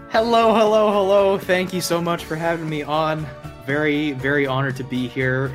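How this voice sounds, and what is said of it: Canadian accent. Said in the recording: “coming to you live from the wonderful, magical realm of Canada Land ... I was trying to place that accent.”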